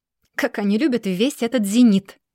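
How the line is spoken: Mocking remark. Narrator (Russian): насмешливо замечает Феникс

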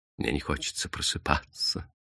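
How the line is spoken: Quiet. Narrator (Russian): сказал он тихо

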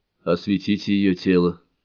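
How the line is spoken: Muffled demand. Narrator (Russian): глухо потребовал Рогу

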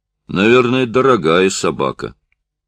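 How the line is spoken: Sudden deep voice. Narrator (Russian): Антон пробасил неожиданно

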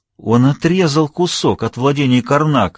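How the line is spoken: Vizier exclaiming. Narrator (Russian): воскликнул визирь

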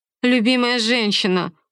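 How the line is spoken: Snorting young woman. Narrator (Russian): фыркнула девица

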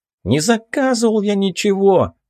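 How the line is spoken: Muffled yelling behind door. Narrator (Russian): вопит он из-за двери

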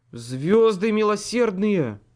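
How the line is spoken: Breathed out. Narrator (Russian): выдохнул

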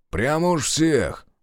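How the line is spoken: Grumbling mutter. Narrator (Russian): буркнул Решетов

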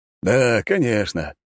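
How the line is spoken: Distracted snort. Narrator (Russian): отвлеченно кивнул Лажон и фыркнул

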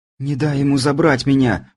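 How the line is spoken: Tearful pleading. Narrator (Russian): взмолилась смотревшая на меня полными слез глазами Лазарева

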